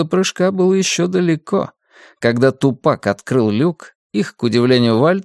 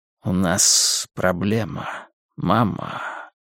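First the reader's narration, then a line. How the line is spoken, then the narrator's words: Rustling voice. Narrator (Russian): сообщил шелестящим голосом Вермус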